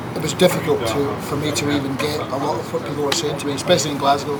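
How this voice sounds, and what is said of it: Soft Scottish accent. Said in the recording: “where are you from with that beautiful accent? ... Scotland. ... But you held that Scottish. ... It's relatively soft”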